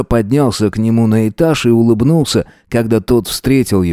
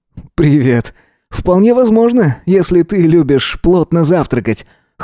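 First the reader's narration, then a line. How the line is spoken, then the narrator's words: Amused snort. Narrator (Russian): хмыкнул он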